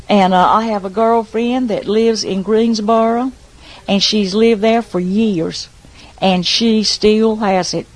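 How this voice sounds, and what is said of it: Heavy Outer Banks brogue. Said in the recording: “the children from Wanchese have a real heavy brogue, just like what, as bad as me or worse”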